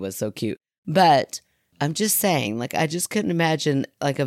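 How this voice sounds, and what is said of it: Usual voice. Nothing is said of it.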